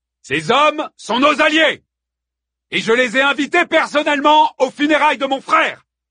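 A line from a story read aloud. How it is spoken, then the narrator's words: Exclaimed. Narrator (French): s'écria Hector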